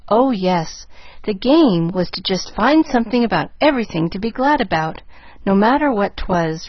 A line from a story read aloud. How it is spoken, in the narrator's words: rejoined Pollyanna earnestly